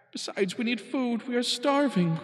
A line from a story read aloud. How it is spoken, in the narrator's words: groaned Mac